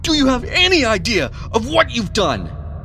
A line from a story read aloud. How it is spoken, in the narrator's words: Edward roared in a mixture of anger and panic